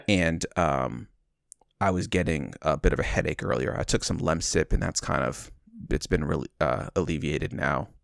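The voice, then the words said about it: Congested, slightly altered voice. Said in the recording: “I'm getting a little bit of congestion, so you might tell that my voice sounds a little different.”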